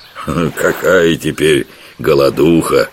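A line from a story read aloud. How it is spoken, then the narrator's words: Chuckling. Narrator (Russian): хохотнул Жихарь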